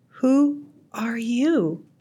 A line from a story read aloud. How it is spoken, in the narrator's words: asked Ruby softly